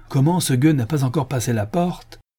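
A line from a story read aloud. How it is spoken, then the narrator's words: Exclaimed. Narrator (French): s'écria le commissaire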